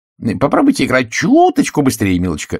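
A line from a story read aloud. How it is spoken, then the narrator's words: Exclaiming. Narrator (Russian): воскликнула Каролайн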